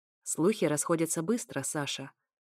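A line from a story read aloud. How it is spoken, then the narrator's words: Sudden, completely calm, unsmiling. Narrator (Russian): сказал вдруг совершенно спокойно и без капли улыбки Эфир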